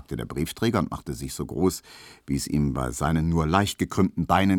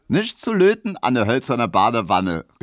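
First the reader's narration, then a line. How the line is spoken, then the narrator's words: Called out. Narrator (German): rief Emma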